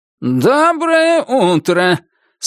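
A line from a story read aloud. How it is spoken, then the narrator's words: Harsh nasal greeting. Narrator (Russian): своим резким и гнусавым голосом приветствовал судья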